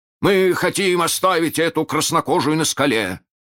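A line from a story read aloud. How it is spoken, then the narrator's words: Shouted. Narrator (Russian): крикнул Неряха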